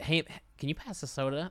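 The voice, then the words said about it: Put-on Californian American accent. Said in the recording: “The Cali. ... Not bad. ... You don't put an accent on, you put a voice on.”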